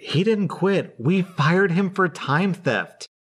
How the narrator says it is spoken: She laughed and said

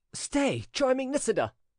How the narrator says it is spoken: cried the prince, in the manner of a man overcome by irresistible passion

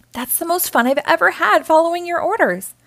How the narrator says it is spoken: Ralph exclaimed

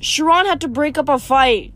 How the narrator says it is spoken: Luke shouted to me over the music

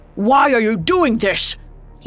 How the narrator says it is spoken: he shouted

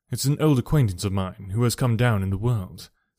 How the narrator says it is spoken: said she

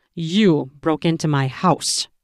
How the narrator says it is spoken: I growled into her ear

